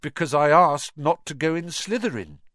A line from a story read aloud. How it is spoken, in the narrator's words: said Harry in a defeated voice